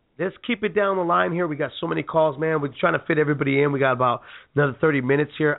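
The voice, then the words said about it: Hoarse, failing voice. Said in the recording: “I'm losing my voice completely now. It was coming back, but it's definitely it's going away.”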